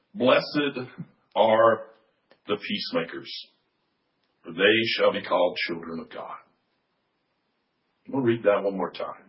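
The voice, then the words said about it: Hoarse, strained voice. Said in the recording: “You also notice I'm losing my voice”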